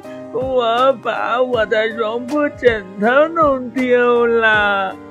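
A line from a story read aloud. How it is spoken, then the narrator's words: Crying. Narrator (Chinese): 他哭着说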